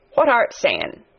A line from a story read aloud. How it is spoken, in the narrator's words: asked, rather testily, because he did not want his attention distracted